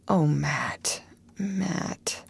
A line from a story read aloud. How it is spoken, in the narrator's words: he groaned